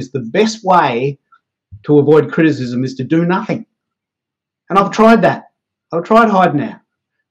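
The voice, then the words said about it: Australian accent. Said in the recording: “I've got this accent. I can't help how I speak... I'm leveraging my Aussie-ness”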